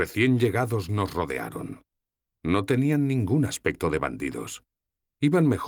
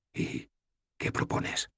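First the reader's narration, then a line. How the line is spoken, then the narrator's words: Whispered. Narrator (Spanish): le susurré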